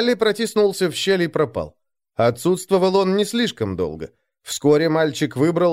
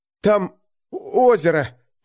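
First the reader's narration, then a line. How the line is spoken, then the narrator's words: Hoarse wheeze. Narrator (Russian): прохрипел он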